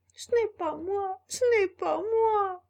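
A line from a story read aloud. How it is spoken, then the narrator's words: Shouting while sobbing. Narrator (French): cria Pinocchio en sanglotant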